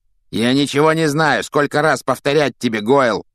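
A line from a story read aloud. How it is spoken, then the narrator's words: Growling. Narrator (Russian): рыкнул на него Малфой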